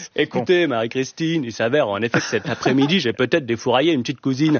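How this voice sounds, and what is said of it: Posh Versailles accent, hot-potato mouth. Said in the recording (French): “à Versailles aussi, ils ont un accent, d'ailleurs, avec leur patate chaude de consanguin dans la bouche”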